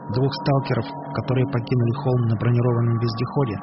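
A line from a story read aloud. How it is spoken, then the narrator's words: Plain. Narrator (Russian): спросил Макс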